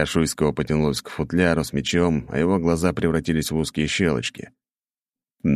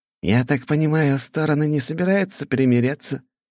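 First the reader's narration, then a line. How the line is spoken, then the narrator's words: Mocking question. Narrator (Russian): издевательским голосом спросил Шуйский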